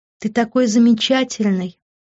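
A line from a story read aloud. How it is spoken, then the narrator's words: Purring. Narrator (Russian): промурлыкала я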